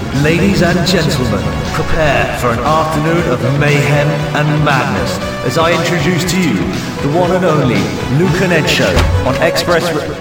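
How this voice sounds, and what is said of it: Put-on announcer radio voice. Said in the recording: “Why are you speaking like that? ... it's my radio voice and on the radio. It sounds better.”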